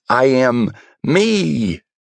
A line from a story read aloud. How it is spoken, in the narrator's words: I'd simply shouted